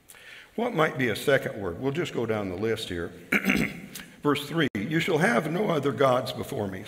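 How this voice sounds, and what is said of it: Strained, hoarse voice. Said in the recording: “Sorry about my voice. I'm not used to yelling at people so much.”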